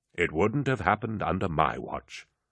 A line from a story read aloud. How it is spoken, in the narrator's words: murmured Torgadon